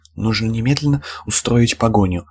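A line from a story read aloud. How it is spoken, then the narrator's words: Breathless. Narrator (Russian): выдохнула Элвик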